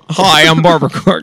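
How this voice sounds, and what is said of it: Imitates another person's voice. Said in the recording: “Your impression's amazing, actually. What you just did was amazing.”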